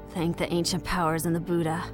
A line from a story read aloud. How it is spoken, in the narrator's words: said in a thin, fervent voice